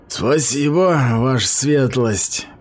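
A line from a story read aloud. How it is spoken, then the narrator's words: Through gritted teeth. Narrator (Russian): процедил Грёте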